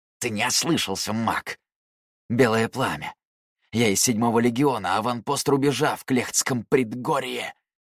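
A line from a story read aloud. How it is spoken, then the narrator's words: Hoarse, heavy breathing. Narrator (Russian): прохрипел дезертир, тяжело дыша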